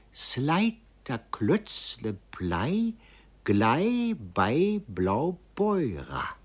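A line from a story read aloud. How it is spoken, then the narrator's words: Blushing, slow speech. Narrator (German): Sie wurde rot bis an die Schläfe, doch hub sie an und glücklicherweise gar langsam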